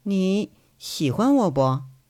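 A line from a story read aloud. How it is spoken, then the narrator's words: Embarrassed murmur. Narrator (Chinese): 佟思瑶讪讪的…嘴里喃喃的说一句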